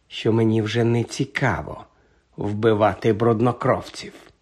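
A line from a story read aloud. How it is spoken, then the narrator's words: Calm remark. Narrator (Ukrainian): спокійно зауважив Редл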